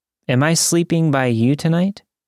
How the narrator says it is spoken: asked

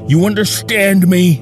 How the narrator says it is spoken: He shouts at us

